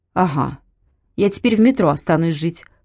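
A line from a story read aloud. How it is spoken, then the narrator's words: Snorting. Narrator (Russian): хмыкнула Белка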